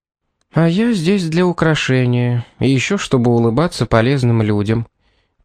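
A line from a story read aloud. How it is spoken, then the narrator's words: Sad. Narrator (Russian): печально произнесла Эмили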